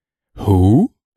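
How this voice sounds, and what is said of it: Imitates another person's voice. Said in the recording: “my Jimon Hansu impression”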